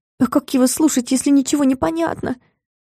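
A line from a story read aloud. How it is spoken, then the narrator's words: Dejected, forced out. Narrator (Russian): тоскливо выдавила я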